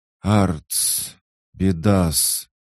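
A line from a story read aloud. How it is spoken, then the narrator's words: Breathless exclamation. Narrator (Russian): выдохнула мелочь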